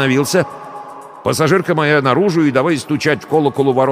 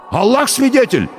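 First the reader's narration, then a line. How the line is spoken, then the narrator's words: Near shout. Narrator (Russian): почти крикнул шофер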